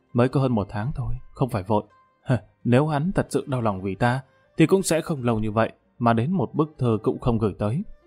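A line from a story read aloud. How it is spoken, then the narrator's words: Embarrassed quiet voice. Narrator (Vietnamese): Ngọc Gia xấu hổ nhỏ giọng nói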